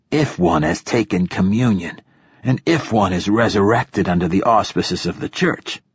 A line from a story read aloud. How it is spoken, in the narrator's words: he rasped